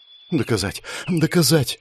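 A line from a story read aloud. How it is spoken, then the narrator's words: Muttering. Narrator (Russian): забормотала она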